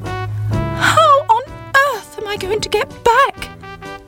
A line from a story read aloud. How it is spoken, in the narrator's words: cried Sybil